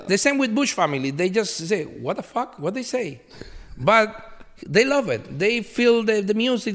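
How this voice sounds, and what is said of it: Spanish-speaker's accent in English. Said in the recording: “you cannot sing because your accent ... with my accent, with my Spanish”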